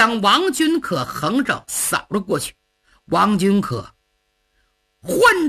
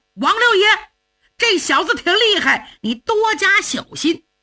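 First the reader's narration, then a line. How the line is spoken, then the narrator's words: Young men shouting loudly. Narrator (Chinese): 英雄会的儿郎也高喊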